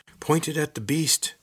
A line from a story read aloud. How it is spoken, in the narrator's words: someone shouted